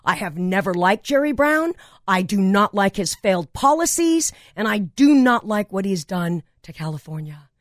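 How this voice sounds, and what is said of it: Passionate, impassioned delivery. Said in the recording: “you can hear the passion in my voice.”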